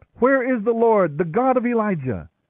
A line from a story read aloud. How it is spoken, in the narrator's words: cried out